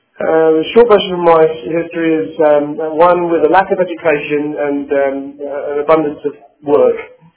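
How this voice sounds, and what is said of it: British English accent. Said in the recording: “as you will tell from my accent, I'm of British descent, born and bred in England and in London”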